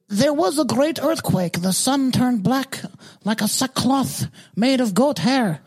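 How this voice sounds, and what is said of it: Odd put-on accent while reading. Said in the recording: “What kind of fucking accent is that?”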